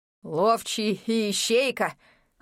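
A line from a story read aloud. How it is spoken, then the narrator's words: Eerie chuckle. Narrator (Russian): Хохотнул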